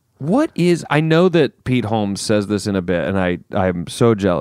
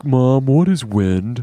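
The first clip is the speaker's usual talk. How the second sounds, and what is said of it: Imitates another person's voice. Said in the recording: “That's a good Pete Holmes ... doing that Pete Holmes voice.”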